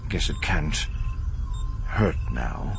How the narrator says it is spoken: Himron murmured

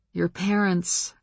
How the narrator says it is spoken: I sighed

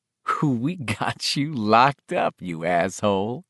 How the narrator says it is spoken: another voice laughed

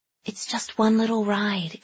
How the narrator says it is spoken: Kaylee whispered

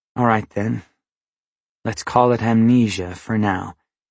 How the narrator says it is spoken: he said in a resigned voice

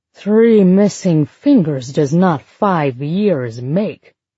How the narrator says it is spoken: As Plath once slurred

